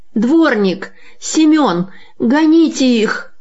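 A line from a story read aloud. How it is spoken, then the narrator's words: Angry woman shouting. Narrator (Russian): закричала с искаженным от гнева лицом барыня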